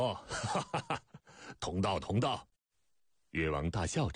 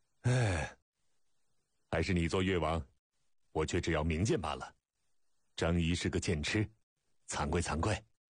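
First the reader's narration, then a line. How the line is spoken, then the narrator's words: Dejected sigh, mimicking king's tone. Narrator (Chinese): 张仪不自觉学着越王腔调，沮丧地长叹一声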